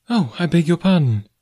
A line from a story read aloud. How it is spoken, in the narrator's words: she exclaimed